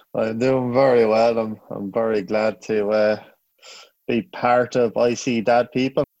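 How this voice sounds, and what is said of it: Irish accent. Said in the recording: “He's from Ireland, if you haven't guessed from his accent.”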